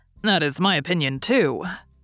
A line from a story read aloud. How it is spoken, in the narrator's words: said Ned Land coolly